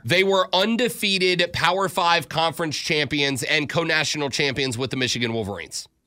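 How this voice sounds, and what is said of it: Florida Panhandle Southern accent. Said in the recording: “Is that a Florida accent? ... Florida Panhandle for sure.”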